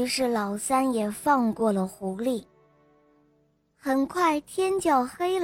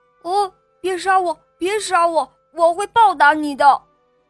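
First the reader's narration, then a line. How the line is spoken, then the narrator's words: Fox crying out. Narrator (Chinese): 狐狸叫道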